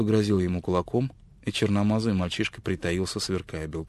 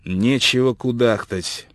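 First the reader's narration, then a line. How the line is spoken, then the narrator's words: Conciliatory tone. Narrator (Russian): продолжал белый человек примирительным тоном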